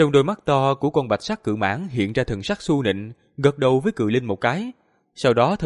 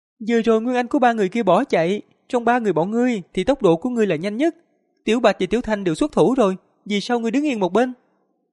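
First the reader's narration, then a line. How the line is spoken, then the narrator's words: Shrill childish beetle voice. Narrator (Vietnamese): Giáp trùng màu vàng ngoác miệng, thình lình nói bằng tiếng người với giọng lanh lảnh non nớt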